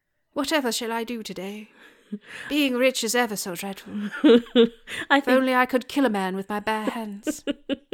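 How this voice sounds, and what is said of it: Put-on posh English accent. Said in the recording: “Your English accent is about as good as Angelina Jolie's.”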